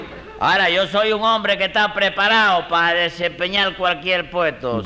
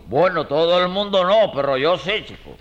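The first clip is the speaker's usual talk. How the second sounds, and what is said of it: Put-on man's voice. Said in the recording (Spanish): “¿Y esa que, voz? ¿Y esa voz? ... metí voz de hombre ahí”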